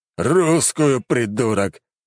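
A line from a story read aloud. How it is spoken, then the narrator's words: Emperor growling. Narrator (Russian): рыкнул император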